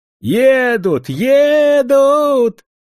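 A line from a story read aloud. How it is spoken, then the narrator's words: Woman suddenly shouting. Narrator (Russian): вдруг закричала тетка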